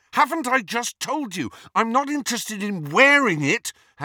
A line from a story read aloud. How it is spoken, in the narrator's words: Harry said fiercely